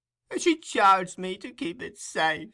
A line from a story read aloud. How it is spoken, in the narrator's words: replied the old woman with a groan